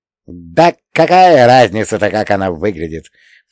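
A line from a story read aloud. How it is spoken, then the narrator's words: Tipsy snort. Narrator (Russian): фыркнул поддатый Ломонос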